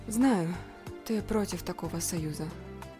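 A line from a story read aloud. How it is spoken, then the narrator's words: Sighing. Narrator (Russian): вздохнула Лина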